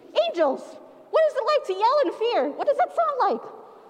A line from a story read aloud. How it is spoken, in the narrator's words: She screamed